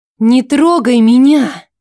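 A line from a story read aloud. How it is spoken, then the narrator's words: Hissed. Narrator (Russian): Я зашипела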